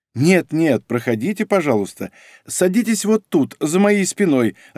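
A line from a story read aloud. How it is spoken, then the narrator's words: Laughing, woman doctor. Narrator (Russian): рассмеялась врач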